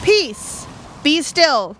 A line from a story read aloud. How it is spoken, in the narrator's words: Jesus rebuked the wind and said to the seas in a loud voice